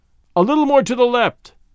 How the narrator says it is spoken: he next called out

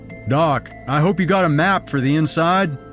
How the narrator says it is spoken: he shouted

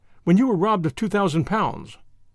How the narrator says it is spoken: cried his son in astonishment

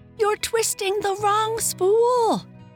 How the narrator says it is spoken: Janie screamed

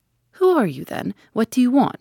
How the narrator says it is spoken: he asked in a quavering voice

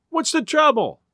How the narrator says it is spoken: a woman cried

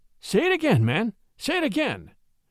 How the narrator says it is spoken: Charlie exclaimed in an excited voice

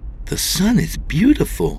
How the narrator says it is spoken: she exclaimed

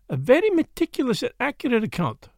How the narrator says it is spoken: he said kindly

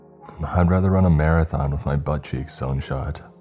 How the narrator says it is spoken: I replied

